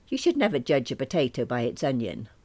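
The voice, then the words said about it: Put-on Irish accent. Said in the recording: “in an Irish accent”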